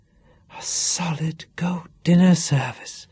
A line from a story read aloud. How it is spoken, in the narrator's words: gasped Candy